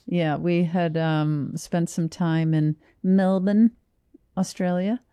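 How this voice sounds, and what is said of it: Good put-on Australian accent. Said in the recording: “that was a really good Australian accent.”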